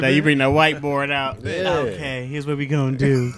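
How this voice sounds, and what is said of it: Impression of a co-host. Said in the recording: “DC impression”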